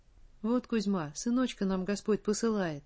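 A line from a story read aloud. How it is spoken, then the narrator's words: Tender, touched voice. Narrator (Russian): умилённым голосом пояснила мужу Матрёна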